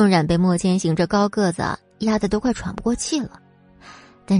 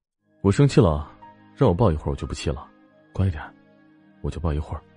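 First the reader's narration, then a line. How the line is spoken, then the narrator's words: Gentle, low reassuring voice. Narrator (Chinese): 莫千行感觉他有一点害怕，于是温柔的低声说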